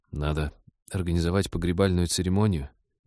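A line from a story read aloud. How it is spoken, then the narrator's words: Sad but firm. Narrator (Russian): печально, но твердо направил скорбь в деловое русло Станислав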